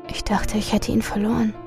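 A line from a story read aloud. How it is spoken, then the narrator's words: Soft voice. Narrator (German): sagte sie leise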